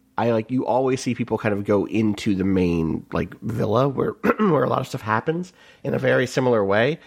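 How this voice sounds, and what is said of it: Hoarse, strained voice. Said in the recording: “I'm losing my voice. It's bad. ... I took up smoking. I didn't take up smoking, but it sounds like I did.”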